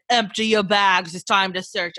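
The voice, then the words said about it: Godfather-style put-on accent. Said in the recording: “The Godfather said ... I don't know what that accent was.”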